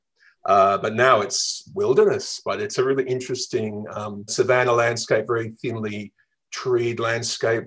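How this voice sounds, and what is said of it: Mild Melbourne Australian accent. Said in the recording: “mine is not like that at all ... I think I became a bit British for a while and then sort of wandered back towards Australia ... apparently I have a Melbourne accent”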